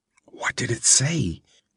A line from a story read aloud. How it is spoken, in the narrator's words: she whispered